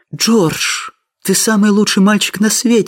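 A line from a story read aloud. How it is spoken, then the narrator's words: Exclaiming. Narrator (Russian): воскликнула она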